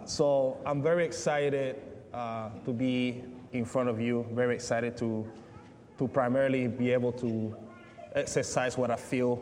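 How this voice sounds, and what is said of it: Speaks with a noticeable accent. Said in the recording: “tune in your ears for my accent”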